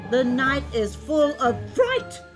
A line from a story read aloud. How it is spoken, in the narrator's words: screamed the fourth